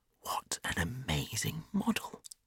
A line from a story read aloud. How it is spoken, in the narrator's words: whispered Hughie